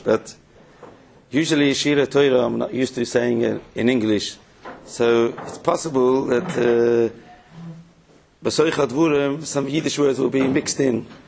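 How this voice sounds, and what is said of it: Non-native accented English. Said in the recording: “I do speak perfect English, maybe with an accent”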